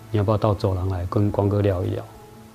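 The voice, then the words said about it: Quiet, soft-spoken delivery. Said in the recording (Chinese): “小声的靠近他说 ... 跟前面那一段的说话方式就完全不一样”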